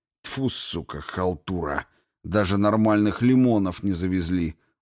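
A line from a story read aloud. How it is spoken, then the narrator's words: Gruff mutter. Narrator (Russian): буркнул Грей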